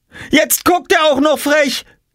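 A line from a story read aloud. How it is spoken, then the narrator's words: Shouted. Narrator (German): schrie Jule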